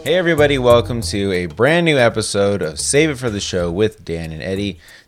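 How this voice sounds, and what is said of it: Tired, slightly sick-sounding voice. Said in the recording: “does my voice sound a little weird this week? ... It sounds like you're a little tired, maybe a little sick or something.”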